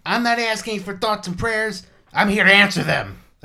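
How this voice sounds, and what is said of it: Imitates another person's voice. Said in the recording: “my Seth Rollins impression”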